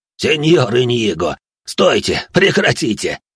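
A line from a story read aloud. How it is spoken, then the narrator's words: Laughing loudly. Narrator (Russian): хохотал он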